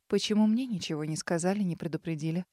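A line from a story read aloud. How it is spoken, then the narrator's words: Restrained even question. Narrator (Russian): сдерживая желание наорать на них, и прежним ровным голосом спросила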